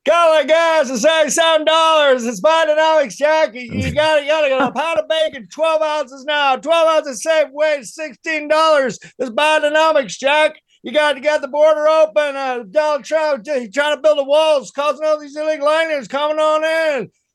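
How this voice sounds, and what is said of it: Joe Biden impression, raving. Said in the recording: “my Biden impression ... it's a pretty simple impression. Just go into raving idiot mode”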